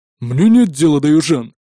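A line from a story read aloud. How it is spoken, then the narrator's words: Grumbling. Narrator (Russian): проворчал Магнус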